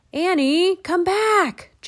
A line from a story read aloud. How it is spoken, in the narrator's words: Jack shouted